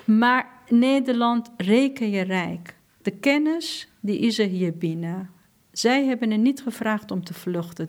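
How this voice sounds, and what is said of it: Non-native accent in Dutch. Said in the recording (Dutch): “ook al spreek ik Nederlands nog niet als niet-spreker met een accent”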